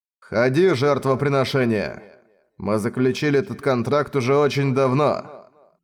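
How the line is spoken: Plain. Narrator (Russian): Сказал голос

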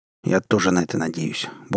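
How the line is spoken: Gruff mutter. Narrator (Russian): буркнул я

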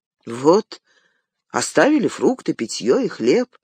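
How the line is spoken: Somewhat bewildered. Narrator (Russian): как-то растерянно сказал Пиппин

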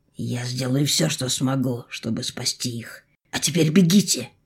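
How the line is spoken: Deep guttural growl. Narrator (Russian): утробно зарычал

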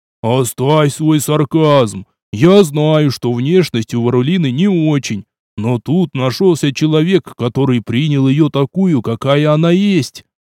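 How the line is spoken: Exclaiming. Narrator (Russian): воскликнул староста

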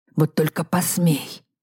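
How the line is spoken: Hissed. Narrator (Russian): прошипел Сущий Фракуса

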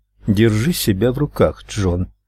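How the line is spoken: Dry remark. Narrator (Russian): сухо заметила женщина

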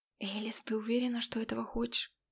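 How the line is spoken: Asked quietly. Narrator (Russian): тихонько спросил он

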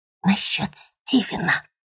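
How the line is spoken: Mother whispering. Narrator (Russian): прошептала мама

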